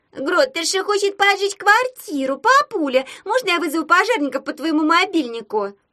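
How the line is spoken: Squeaky voice. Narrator (Russian): пискнула Пипа

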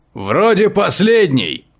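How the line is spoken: Shouting into the distance. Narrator (Russian): прокричал он кому-то вдаль

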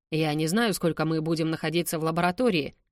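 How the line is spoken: Plain. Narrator (Russian): ответил он

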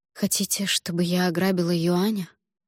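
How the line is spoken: Sighing. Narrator (Russian): Фэн Чань вздохнула

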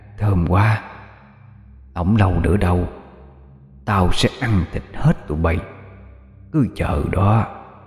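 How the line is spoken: Demon's soft chuckling murmur. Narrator (Vietnamese): con quỷ cười nhẹ cho buộc miệng nói khẽ

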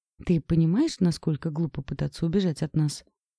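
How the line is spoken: Calm question. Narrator (Russian): спокойно спросил Макс

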